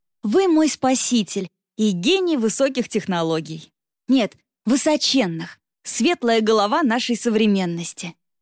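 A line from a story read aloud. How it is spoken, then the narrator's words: Loud exclamation. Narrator (Russian): девушка громко воскликнула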